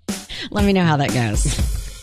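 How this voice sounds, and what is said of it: Sarcastic tone. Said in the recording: “saying that very sarcastically”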